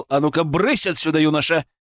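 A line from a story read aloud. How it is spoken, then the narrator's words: Stern. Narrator (Russian): вслух строго сказал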